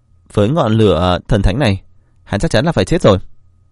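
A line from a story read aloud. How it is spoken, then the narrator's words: Smiling. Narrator (Vietnamese): Alice mỉm cười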